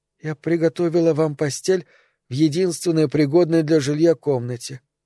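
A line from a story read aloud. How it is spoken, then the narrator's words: Timid. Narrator (Russian): робко заговорила служанка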